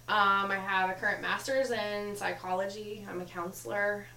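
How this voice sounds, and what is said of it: Slight Kentucky-tinged American accent. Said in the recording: “She has an accent. Where's this accent from? ... I lived in Kentucky for about 10 and a half years. So occasionally it comes out.”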